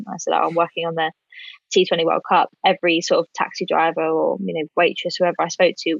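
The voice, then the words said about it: British accent. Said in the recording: “they recognise the British accent”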